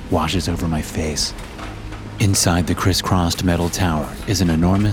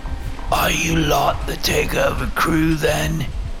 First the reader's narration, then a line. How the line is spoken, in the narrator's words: croaks out in a voice, hoarse beyond exhaustion